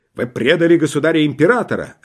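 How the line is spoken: Barked. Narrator (Russian): рявкнул он

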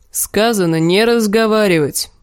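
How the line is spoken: Grumbling. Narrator (Russian): проворчал гребец

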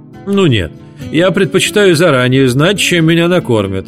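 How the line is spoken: Exclaiming, then laughing. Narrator (Russian): вскричала тетя Роза и засмеялась

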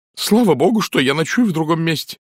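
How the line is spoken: Exclamation. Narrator (Russian): воскликнула миссис Николетис

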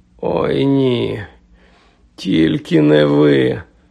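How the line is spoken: Groaning. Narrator (Ukrainian): простогнав Гаррі

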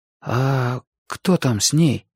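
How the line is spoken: Whisper. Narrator (Russian): прошептал я

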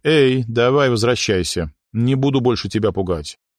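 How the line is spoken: Gentle, affectionate. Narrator (Russian): И ласково сказал принцессе

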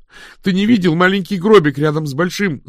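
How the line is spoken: Shout. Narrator (Russian): закричала Дафна

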